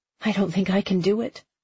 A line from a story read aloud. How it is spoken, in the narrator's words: she whispered to the dog